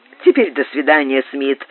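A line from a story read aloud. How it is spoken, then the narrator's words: Plain. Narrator (Russian): сказал он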